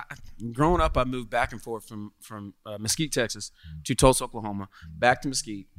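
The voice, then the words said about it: Southern US accent. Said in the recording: “your southern accent is coming out just talking about Texas”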